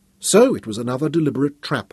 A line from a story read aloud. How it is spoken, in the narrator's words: Royan exclaimed